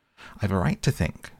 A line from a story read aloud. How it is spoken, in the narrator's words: said Alice sharply, for she was beginning to feel a little worried